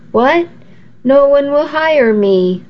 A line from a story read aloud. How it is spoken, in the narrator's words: I cried